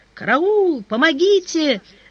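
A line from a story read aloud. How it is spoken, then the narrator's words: Screaming for help. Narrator (Russian): закричала Варвара Михайловна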